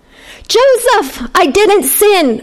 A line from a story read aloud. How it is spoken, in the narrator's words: I shouted through the door